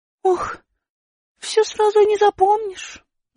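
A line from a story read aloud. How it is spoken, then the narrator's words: Sighing. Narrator (Russian): вздохнула Аля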